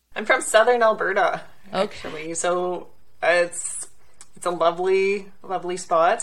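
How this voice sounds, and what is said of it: Slight Canadian accent. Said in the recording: “you have a bit of an accent and you're from Canada”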